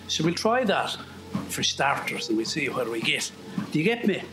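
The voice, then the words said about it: Generic West of Ireland accent. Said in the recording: “He said in some generic West of Ireland accent.”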